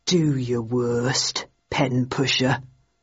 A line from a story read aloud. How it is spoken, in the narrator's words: said softly